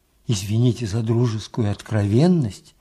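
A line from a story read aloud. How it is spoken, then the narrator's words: Whispering. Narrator (Russian): зашептал Михаил Верьянович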